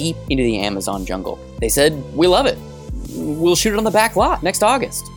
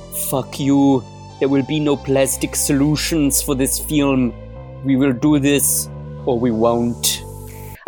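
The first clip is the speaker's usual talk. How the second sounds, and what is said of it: Werner Herzog impression. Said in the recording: “to do a Werner Herzog impression”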